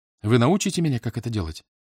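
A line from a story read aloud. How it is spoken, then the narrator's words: Quick question. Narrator (Russian): быстро спросила Летиция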